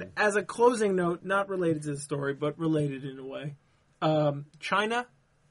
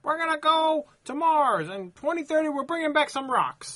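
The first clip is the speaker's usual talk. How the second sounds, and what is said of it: Put-on Chinese accent. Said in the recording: “That is an excellent Chinese accent.”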